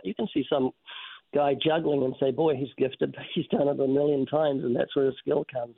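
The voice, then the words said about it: New Zealand accent. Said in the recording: “They just need a New Zealand accent.”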